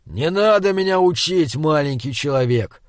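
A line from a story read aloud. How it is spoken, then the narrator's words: Angry growl. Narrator (Russian): зарычал Изгримнур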